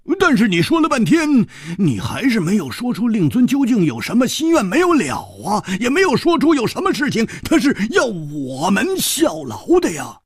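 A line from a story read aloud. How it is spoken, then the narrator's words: Suddenly loud. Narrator (Chinese): 胡铁花忽然大声地说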